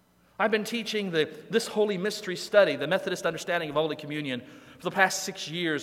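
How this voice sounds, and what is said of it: Usual voice. Nothing is said of it.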